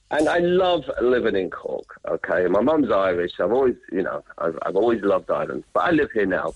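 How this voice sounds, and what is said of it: London English accent. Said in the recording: “you can tell by my accent, I'm not from Cork ... You're the English? ... I am from London”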